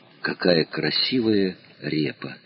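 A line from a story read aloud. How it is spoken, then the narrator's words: Small child's whisper. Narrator (Russian): Маленький Боря шепотом произносит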